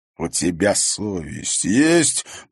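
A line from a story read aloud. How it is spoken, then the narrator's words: Growled. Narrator (Russian): прорычал он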